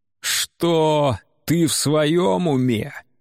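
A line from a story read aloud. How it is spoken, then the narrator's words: Roaring incredulous laughter. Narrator (Russian): Говард расхохотался так, будто глупее шутки не слышал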